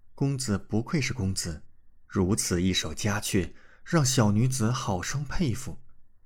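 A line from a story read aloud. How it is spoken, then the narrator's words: Admiring, after a long breath. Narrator (Chinese): 久久才吐出一口长气，赞叹道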